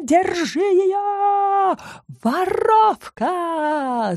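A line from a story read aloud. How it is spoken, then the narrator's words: Wailing scream. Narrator (Russian): завопила Бейкерша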